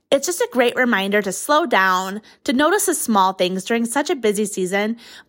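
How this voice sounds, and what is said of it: Distinctive, unusual accent. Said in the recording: “That accent. I love her accent. ... it's a very unique one”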